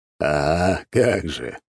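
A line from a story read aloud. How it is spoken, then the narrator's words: Chuckling. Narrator (Russian): хохотнул Дориан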